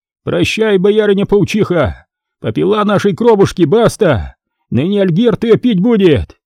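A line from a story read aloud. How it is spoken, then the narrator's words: Shout. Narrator (Russian): Кто-то из них крикнул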